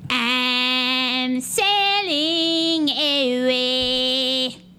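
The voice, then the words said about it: Singing in Cartman cartoon voice. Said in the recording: “singing Come Sail Away in the Cartman voice”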